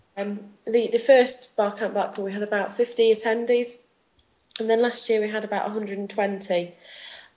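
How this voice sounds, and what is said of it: Lancashire English accent. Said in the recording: “I don't know if you can tell from the accent, but that's where I'm from ... Lancashire”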